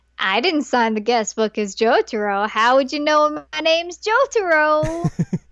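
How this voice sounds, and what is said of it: Imitates another person's voice. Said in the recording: “I clearly do a good Matt Mercer impersonation.”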